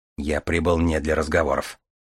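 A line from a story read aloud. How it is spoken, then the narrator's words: Dry, curt retort. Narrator (Russian): сухо отрезал Дар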